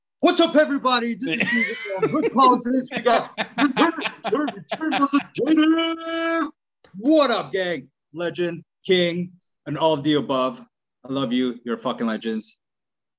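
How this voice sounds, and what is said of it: Imitates another person's voice. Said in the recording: “that was my Susan impersonation ... That was a DJ Susan impersonation ... I'm going to give it a 10 out of 10. That was unbelievable.”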